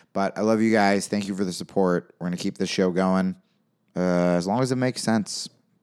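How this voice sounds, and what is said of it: Hoarse, strained voice. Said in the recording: “My voice is completely fried from this weekend.”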